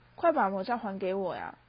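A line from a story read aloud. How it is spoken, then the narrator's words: Plain. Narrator (Chinese): 我说的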